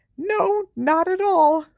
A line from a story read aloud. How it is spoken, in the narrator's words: squeaked Hermione